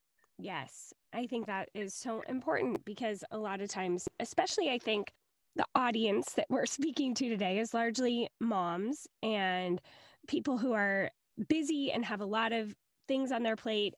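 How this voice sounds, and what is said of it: Hoarse, strained voice. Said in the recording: “my voice is so bad, you guys... I've got laryngitis”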